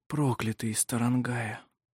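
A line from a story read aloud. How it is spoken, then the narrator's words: Whispered. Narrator (Russian): прошептал он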